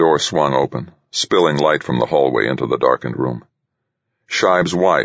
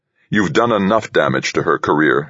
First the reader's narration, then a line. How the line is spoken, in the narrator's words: Scheib snapped, nearly snarling